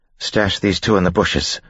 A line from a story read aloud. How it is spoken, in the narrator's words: Vin said quickly